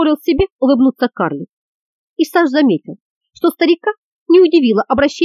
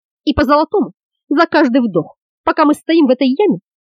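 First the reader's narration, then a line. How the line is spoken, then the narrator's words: Indignant hiss. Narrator (Russian): возмущенно прошипел за спиной Леганда Ангел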